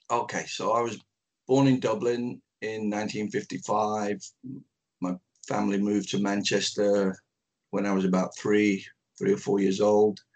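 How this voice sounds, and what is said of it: Manchester English accent. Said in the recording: “I grew up in Manchester. That's why the accent is where it is.”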